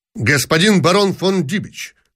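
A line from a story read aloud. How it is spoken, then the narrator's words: Sharp. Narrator (Russian): сказал он резко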